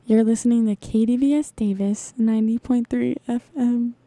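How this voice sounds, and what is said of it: Smooth public radio announcer voice. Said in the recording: “rate my NPR voice out of 10”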